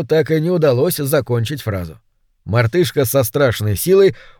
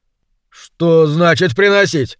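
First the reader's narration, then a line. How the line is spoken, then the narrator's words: Irritated question. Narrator (Russian): раздраженно поинтересовался Кенни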